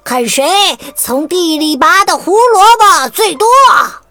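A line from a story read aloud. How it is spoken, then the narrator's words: Loud shout. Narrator (Chinese): 卡西米尔高声喊着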